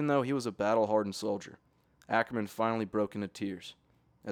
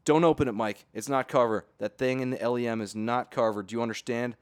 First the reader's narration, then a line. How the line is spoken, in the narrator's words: shouted back in pain